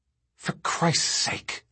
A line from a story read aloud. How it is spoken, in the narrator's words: Thorne whispered